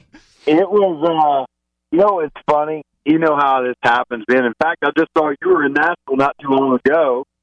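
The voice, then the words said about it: Southern American accent. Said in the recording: “Ooh, a southern accent. I love a southern accent.”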